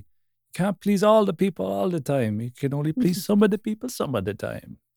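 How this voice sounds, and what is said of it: Half-hearted, weak Jamaican accent. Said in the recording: “I was kind of trying to attempt a Jamaican accent, but I didn't want to go full on. So I was kind of half and half there. That was really bad.”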